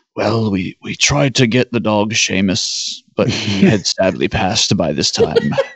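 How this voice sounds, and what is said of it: Imitates another person's voice. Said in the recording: “my ... impersonation of David Gilmour”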